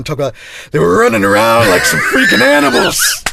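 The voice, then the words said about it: Imitates another person's voice. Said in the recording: “do I have to do my Kirk Douglas impression?”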